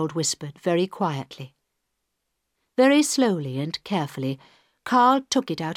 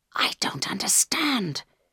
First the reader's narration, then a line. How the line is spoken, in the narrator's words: whispered Carl